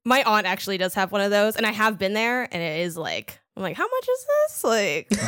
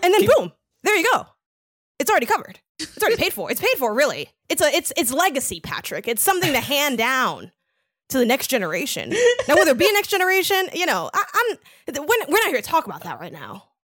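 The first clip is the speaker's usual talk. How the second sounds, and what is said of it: Imitates another person's voice. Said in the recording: “are you speaking in a Robin voice right now? ... my Rob Zachney impression”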